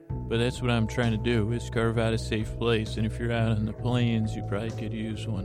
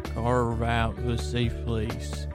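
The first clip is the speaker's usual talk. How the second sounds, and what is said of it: Put-on Western Plains accent. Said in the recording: “I think I just had a tiny accidental southern accent there ... And that's more Western Plains accent.”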